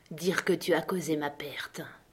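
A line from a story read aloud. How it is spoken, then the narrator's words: Murmured. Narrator (French): murmura Silver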